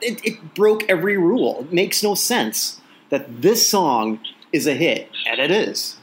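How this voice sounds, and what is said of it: Usual voice. Nothing is said of it.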